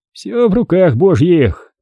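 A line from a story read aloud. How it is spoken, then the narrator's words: Monk sighing. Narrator (Russian): вздохнул монах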